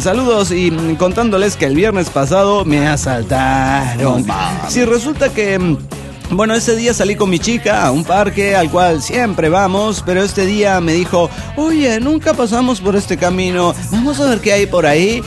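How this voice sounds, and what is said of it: Chilean Spanish accent. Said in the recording (Spanish): “habla con acento chileno”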